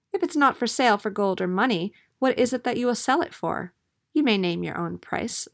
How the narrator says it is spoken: said the princess

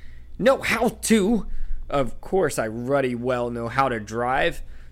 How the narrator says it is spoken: spluttered Uncle Vernon

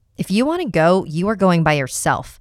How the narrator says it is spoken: I nearly shouted at her

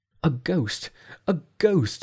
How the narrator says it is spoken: cried

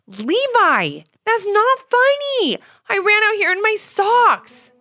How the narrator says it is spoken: shouted Ivy

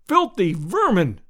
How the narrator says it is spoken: I cried

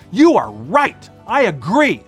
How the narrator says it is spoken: Les roared

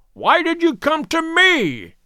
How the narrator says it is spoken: cried

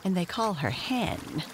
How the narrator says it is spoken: she added, chuckling

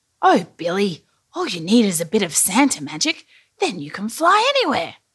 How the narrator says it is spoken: said Santa with a chuckle

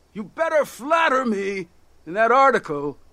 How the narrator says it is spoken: he shouted

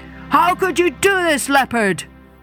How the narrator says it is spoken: they cried

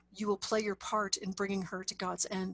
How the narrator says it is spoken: said Nuri

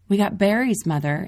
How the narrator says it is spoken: Emma yells

